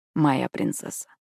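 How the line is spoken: Sweet whisper. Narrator (Russian): сладко прошептал Хьюз

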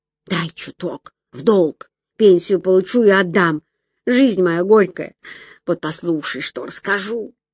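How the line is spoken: Whisper. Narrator (Russian): Фима шептала

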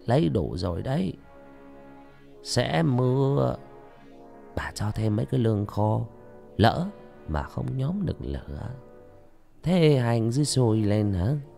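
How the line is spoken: Gentle, soft-spoken. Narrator (Vietnamese): bà nhỏ nhẹ

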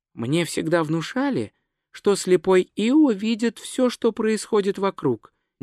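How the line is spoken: Quiet remark. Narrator (Russian): негромко заметила Бетан

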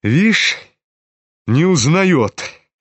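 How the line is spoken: Malicious sneer. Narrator (Russian): Злобно осклабился Рогожин

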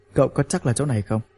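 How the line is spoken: Cold. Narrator (Vietnamese): hắn lạnh lùng nói

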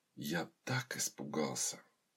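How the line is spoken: Whisper with heavy sigh. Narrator (Russian): Сиятельный Клавдий тяжело выдохнул, прошептав жене

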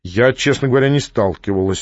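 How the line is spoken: Dry. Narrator (Russian): сухо сказала заводчица

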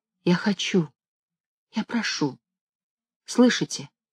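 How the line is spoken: Quiet. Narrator (Russian): Ксения Ипполитовна сказала тихо

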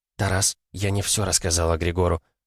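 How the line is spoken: Whisper. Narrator (Russian): также шепотом произнесла она

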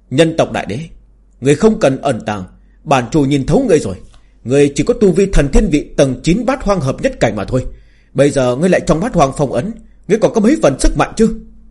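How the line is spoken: Arrogant loud laughter. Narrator (Vietnamese): Tà chủ cuồng vọng cười lớn

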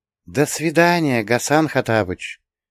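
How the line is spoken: Crystal sing-song female voice. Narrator (Russian): хрустальным голоском пропела богиня

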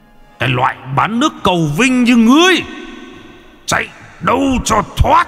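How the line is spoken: Thunderous shout. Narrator (Vietnamese): vị lãnh binh vẫn còn nghe tiếng quát như sấm

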